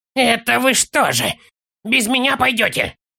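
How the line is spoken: Furious hiss. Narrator (Russian): яростно зашипел он

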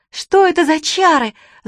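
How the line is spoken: Angry yelling. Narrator (Russian): заорала на него Чермейн

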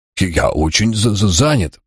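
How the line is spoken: Grumbling. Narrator (Russian): пробурчал казначей

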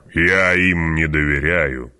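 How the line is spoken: Growl. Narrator (Russian): прорычал барон

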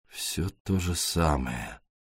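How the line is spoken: Muttering. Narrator (Russian): пробормотал он

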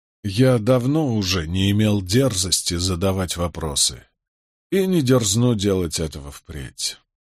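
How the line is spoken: Trembling clenched voice. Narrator (Russian): с дрожью в голосе процедил Болейн

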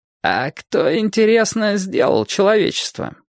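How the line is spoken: Strange-voiced question. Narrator (Russian): странным голосом поинтересовался Владимир Альбертович

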